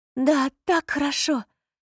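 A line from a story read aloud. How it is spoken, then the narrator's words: Whimpered. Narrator (Russian): Заскулила она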